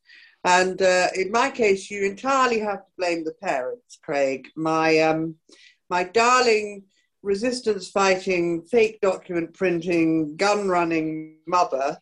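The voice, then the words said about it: Polished British broadcaster accent. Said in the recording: “as you can hear, I don't have an Italian accent ... I've actually got this, you know, Radio 4 presenter voice”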